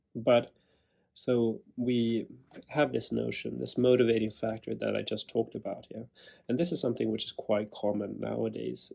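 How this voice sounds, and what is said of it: Strange-sounding sick voice. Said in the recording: “I've had a cold this week, and that is why my voice is so strange right now”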